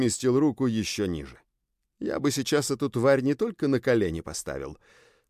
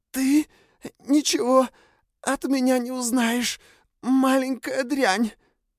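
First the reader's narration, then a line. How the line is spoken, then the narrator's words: Hoarse rasp. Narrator (Russian): Белла прохрипела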